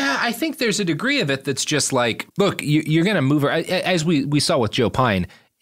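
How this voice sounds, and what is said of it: Usual voice. Nothing is said of it.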